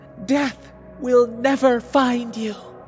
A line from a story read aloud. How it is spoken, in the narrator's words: she shrieked in the Spanish tongue